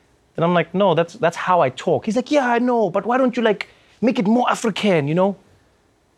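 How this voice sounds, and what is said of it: Usual voice. Nothing is said of it.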